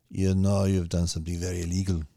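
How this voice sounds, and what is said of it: Put-on German accent. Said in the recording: “This is my German accent again. I'm going to work on my German accent.”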